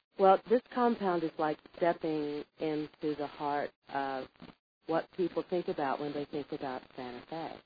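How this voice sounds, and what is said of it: Hoarse, scratchy voice. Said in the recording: “I apologize right away for my scratchy throat... something about the weather is making me a little hoarse.”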